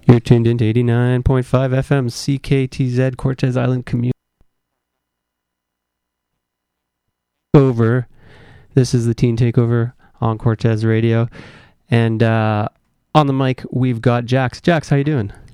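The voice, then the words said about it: Put-on radio announcer voice. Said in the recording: “This isn't really my real voice. This is my radio voice.”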